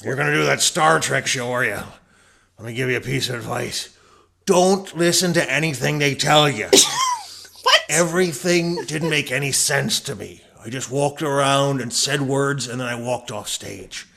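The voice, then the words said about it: Impression of Colm Meaney. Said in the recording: “my Colmeany impersonation”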